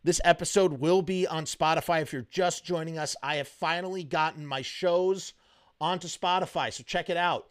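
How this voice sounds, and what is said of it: Hoarse, strained voice. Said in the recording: “My voice is starting to go hoarse.”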